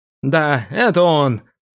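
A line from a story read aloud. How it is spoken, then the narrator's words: Sad creaky voice. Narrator (Russian): печально проскрипел он в итоге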